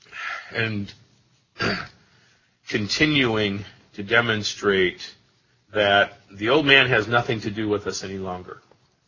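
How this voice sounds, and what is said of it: Strained, failing hoarse voice. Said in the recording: “as you can tell, I'm losing my voice”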